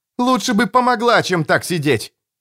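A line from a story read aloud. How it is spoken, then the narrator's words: Snapping. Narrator (Russian): огрызнулся Том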